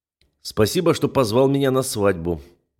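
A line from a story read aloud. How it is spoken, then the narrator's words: Gloomy remark. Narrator (Russian): мрачно замечаю я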